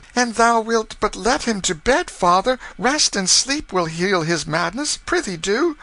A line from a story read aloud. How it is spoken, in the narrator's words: The girls began to plead timidly for their brother, and Nan said